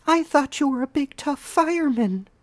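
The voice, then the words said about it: Falsetto girl voice. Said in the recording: “girl voice falsetto”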